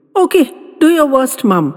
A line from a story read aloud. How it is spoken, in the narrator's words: she declared